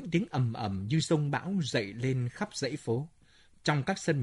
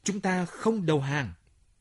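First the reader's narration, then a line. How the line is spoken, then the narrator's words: Defiant cry. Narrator (Vietnamese): Krokotov, một chiến sĩ người trấn Kumsatskaya, kêu lên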